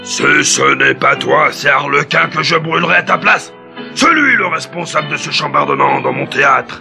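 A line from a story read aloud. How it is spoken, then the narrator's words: Director's angry scolding. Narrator (French): gronda le directeur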